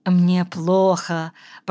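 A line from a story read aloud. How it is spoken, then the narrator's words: Moaning. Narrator (Russian): простонала она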